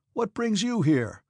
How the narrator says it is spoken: cried the officers

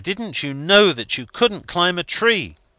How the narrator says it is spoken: cried I

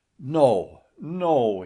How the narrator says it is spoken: he exclaimed, as one in a trance

